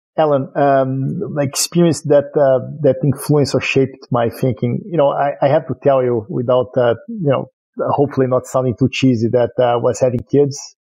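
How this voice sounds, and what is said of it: Brazilian accent. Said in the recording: “your accent is Brazilian”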